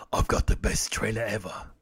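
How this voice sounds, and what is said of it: Jason Statham impression. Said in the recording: “Why do you make Brian sound like Jason Statham? ... This is Jason Statham. ... I'm actually trying to do a decent impression of it”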